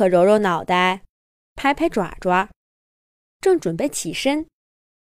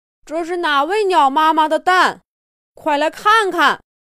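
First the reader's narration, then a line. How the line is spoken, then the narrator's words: Calling out repeatedly. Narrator (Chinese): 杰克喊了半天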